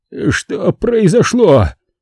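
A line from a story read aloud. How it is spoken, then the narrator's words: Hoarse rasp. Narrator (Russian): прохрипел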